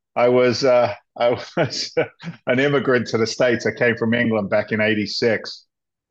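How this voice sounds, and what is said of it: English accent. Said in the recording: “I, like you, have a funny accent.”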